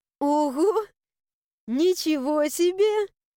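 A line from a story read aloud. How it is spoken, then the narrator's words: Muffled laughter. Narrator (Russian): Я рассмеялась, уткнувшись в плечо моего мужчины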